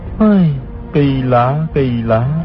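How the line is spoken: Sighing. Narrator (Vietnamese): Hư Trúc thở dài nói

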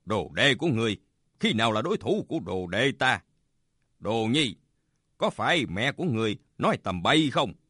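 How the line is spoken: Smiling. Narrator (Vietnamese): Bạch Tự Tại mỉm cười nói

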